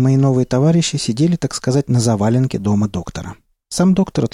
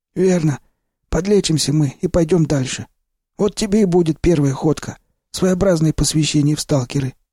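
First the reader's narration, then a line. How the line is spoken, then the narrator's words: Confirming. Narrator (Russian): подтвердил Сиплый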